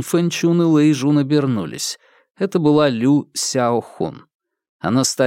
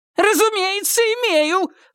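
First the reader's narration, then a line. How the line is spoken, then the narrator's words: Shrill squeal. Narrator (Russian): взвизгнула Лю Сяо Хун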